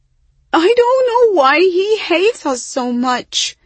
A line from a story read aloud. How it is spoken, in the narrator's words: Hyacinth said with a wail